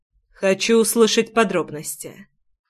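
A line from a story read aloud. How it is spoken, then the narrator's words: Impassive tone. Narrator (Russian): бесстрастным тоном пояснил я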